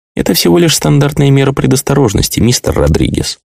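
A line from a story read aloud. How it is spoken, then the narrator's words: Soft explanation. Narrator (Russian): мягким голосом пояснил Такаши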